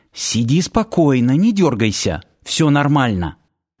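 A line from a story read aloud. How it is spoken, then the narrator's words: Whisper. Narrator (Russian): шепнула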